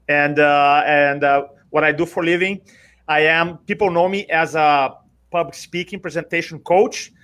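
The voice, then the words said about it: Brazilian accent. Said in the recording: “I'm from Brazil originally. You may recognize the accent”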